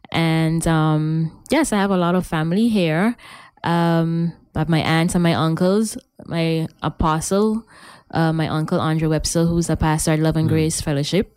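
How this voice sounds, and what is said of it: Raw French Guianese accent. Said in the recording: “I'm from French Guiana. ... The raw accent, eh?”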